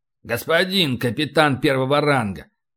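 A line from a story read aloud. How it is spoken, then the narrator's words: Booming. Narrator (Russian): Прогудел полубой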